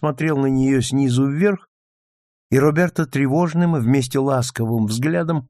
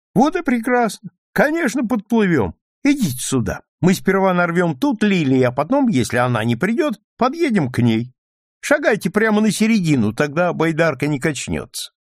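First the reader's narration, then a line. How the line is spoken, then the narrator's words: Delighted exclamation. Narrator (Russian): Клайд воскликнул в восторге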